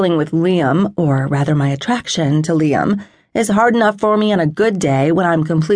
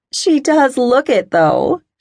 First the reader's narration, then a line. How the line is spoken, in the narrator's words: muses on a laugh